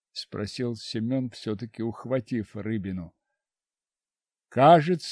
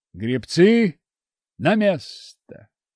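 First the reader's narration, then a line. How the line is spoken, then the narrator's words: Shout. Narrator (Russian): крикнул Федор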